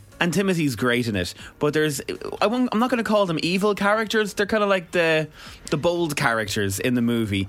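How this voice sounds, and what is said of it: Irish accent. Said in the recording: “they hear my accent straight away”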